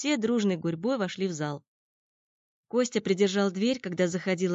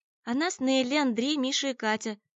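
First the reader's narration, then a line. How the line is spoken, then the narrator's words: Friendly calm group introduction. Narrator (Russian): представились другие, дружелюбно и спокойно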